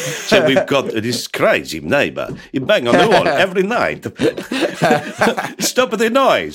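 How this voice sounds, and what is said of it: Put-on Italian accent. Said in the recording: “what a lovely Italian accent that was. I like that. That was really good ... You know how to do the voices.”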